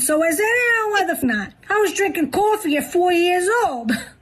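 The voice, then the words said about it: Exaggerated New York accent. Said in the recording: “New York accent contest ... best New York accent”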